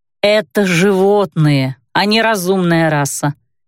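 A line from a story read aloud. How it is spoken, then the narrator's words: Drawling, dismissive. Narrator (Russian): протянул я, давая понять, что мое утверждение совершенно тривиально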